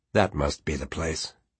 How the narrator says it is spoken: Quentin said dryly

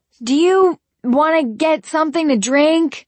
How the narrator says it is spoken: I shouted over the music

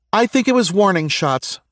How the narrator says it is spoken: Susie yelled over her two teammates

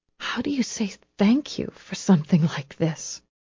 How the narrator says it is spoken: she whispered

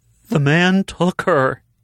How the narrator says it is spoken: wailed

